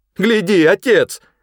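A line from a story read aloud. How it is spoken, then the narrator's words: Sudden shout. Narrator (Russian): закричала внезапно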